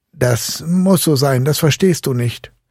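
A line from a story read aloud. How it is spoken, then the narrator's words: Call. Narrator (German): rief Fritz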